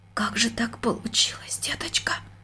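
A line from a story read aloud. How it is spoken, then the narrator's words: Near-whispered question. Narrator (Russian): почти шепотом спросила она дочку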